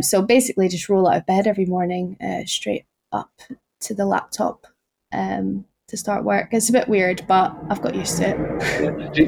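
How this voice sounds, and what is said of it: Noticeable non-local regional accent. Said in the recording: “Obviously not where I'm from, as you can probably tell from my accent.”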